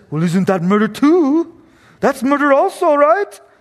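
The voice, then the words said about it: Put-on unidentifiable accent. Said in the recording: “I have no idea what accent that is now.”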